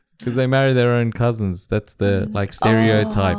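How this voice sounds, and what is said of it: Strong Australian accent. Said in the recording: “full Aussie accent ... You got like a redneck Aussie accent ... Your accent is that much of redneck, mate”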